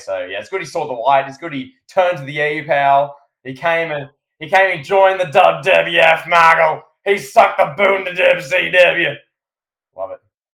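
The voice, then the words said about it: Imitates another person's voice. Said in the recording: “Great JBL impression.”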